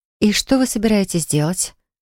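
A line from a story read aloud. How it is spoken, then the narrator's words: Breathless. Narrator (Russian): выдохнула Полли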